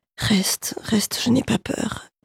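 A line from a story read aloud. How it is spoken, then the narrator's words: Jerky, broken voice. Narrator (French): dit d'une voix saccadée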